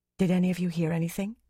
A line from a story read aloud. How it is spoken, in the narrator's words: Fayil whispered